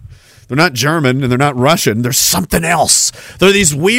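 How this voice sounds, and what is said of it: Usual voice. Nothing is said of it.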